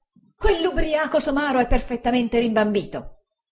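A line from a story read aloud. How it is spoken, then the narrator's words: Exclaimed. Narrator (Italian): esclamò Uriah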